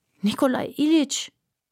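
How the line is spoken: Groaning. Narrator (German): stöhnte Aljoscha

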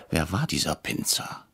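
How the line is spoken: Whispered. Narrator (German): flüsterte ich Herrn Brecher zu

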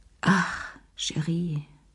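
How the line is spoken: Sighing. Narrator (German): seufzte sie

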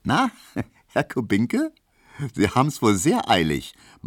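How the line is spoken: Laughing, teasing. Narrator (German): meinte die und lachte Emil Kubinke entgegen

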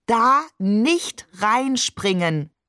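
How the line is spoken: Slow, overly clear. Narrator (German): sagt er überdeutlich und langsam, damit wir uns das auch ja merken

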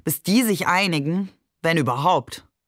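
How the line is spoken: Mocking. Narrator (German): sagte er spöttisch

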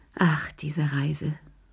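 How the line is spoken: Sighing. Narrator (German): seufzte sie

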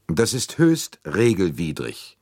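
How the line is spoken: Cold retort. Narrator (German): entgegnete Arbuthnot kalt

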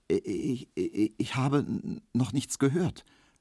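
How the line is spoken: Stuttering. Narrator (German): stotterte Emil Kubinke

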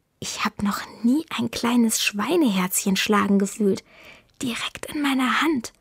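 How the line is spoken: Whispered. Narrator (German): Paolo flüstert

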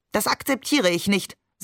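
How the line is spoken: Stern. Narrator (German): sagte Oma streng

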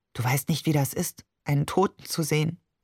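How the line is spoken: Unusually quiet. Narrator (German): sagte schließlich ungewohnt leise

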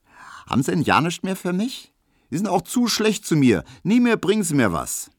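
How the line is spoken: Girl calling out. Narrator (German): rief das Mädchen

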